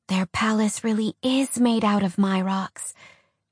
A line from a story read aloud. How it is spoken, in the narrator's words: DC whispered in awe